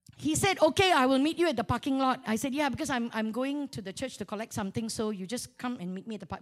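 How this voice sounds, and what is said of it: Malaysian accent. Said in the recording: “I revert back to my Malaysian accent.”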